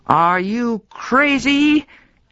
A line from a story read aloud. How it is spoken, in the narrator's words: yelled